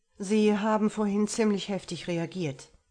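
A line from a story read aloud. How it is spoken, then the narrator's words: Plain. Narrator (German): sagte er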